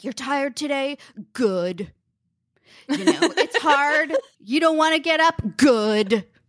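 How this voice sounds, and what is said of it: Imitates another person's voice. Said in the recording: “that's such a good impression.”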